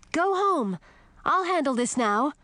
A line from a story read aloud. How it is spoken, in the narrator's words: I shouted to Millie